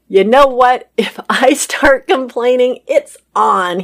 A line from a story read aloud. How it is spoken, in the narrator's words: said through his laughter